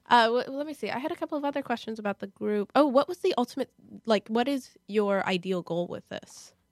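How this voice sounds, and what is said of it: Slightly sick voice. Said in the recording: “I've been having a cough. ... In case anyone couldn't tell, I'm a little bit sick.”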